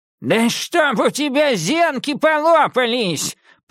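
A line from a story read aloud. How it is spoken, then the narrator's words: Roaring. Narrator (Russian): проревел Дредлс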